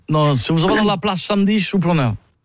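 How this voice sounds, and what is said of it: Put-on foreign accent. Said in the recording (French): “J'ai un petit accent, parce que je viens de...”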